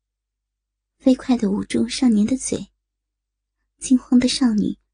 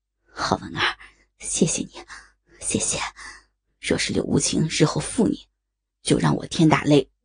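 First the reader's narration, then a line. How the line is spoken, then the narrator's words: Deep, low voice. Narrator (Chinese): 沉声道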